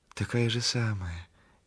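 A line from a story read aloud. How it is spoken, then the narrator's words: Gentle, meek. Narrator (Russian): говорит Валька ласково, кротко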